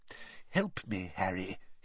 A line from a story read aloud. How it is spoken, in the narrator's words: he muttered